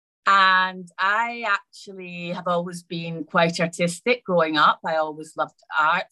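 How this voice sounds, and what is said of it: Scottish accent. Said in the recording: “where does that accent come from? So that's where it comes from. It comes from Scotland.”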